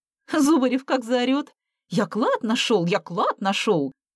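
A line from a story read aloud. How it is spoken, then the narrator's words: Laughing. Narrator (Russian): Смеясь, поделилась Алла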